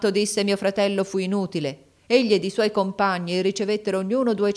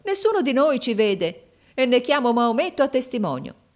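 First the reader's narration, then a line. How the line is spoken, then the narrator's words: Exclaimed. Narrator (Italian): esclamò mio fratello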